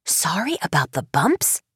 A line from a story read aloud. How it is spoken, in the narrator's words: Carson whispered to Zach